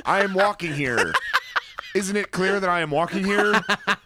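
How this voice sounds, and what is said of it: Put-on Brooklyn accent. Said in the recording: “I'm from Brooklyn ... Was my accent not convincing?”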